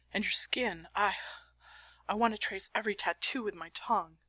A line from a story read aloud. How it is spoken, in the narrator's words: he moans, high and soft, and says